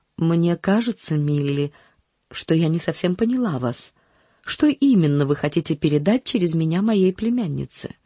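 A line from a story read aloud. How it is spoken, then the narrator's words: Calm statement. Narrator (Russian): спокойно заявив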